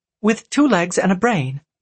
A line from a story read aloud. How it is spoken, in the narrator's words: she snapped